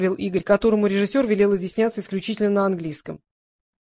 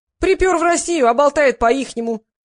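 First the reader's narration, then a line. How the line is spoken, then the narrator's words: Shrieking from the audience. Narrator (Russian): завизжали из зала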